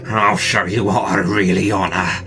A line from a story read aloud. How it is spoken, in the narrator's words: he mumbled